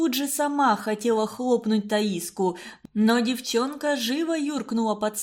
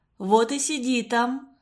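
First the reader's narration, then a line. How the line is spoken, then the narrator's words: Plain. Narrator (Russian): сказала мать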